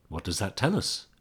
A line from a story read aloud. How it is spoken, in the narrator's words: Bowman asked